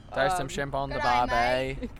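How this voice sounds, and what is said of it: Put-on Australian accent. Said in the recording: “Can you talk in an Australian accent?”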